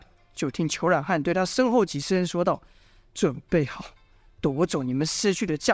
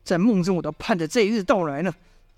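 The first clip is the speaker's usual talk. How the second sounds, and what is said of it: Hateful, bitter voice. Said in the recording (Chinese): “脸色泛红，充满仇恨的声音说道”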